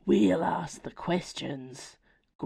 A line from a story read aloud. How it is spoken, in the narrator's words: growled one of the werewolves